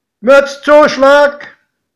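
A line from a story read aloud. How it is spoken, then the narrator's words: Conductor calling out. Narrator (German): rief der Schaffner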